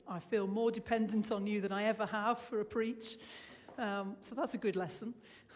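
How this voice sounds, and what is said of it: Weak, fading voice. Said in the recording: “let me apologise for my voice. It started fading on Thursday ... I still have something of a voice this morning”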